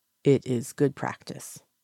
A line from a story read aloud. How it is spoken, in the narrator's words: Lan Zhan says calmly